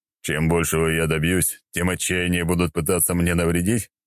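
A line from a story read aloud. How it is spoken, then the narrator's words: Snorting hmph. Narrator (Russian): хмыкнул я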